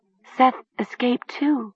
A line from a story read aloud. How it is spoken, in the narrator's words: Talia murmured